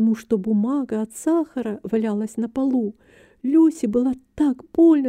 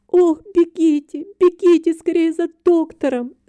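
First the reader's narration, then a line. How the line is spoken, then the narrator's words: Aunt crying out. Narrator (Russian): закричала тетя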